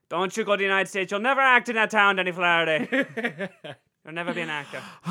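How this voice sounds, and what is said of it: Failed Irish accent, sounds Polish. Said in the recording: “That was not an Irish accent ... That was an exasperated Polish man.”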